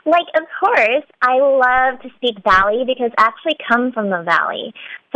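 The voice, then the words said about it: Valley Girl accent. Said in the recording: “you slipped into a Valley Girl accent”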